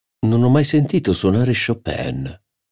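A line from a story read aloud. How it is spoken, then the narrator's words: Plain. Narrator (Italian): disse il barone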